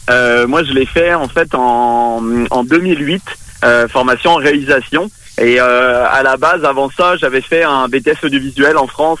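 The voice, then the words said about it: French accent from France. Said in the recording (French): “On l'entend à mon accent, évidemment. Moi, je, je, viens de France, je suis français.”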